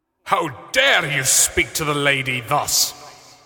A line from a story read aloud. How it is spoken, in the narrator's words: The swordsman bellowed